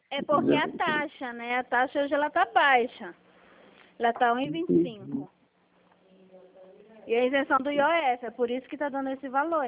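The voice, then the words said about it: Brazilian Paraná regional accent. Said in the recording (Portuguese): “sotaquezinho ... Percebeu o sotaque? Eu falo aqui do Paraná.”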